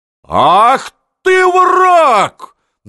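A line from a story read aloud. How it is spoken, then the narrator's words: Shouted. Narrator (Russian): закричала Анна Иоанновна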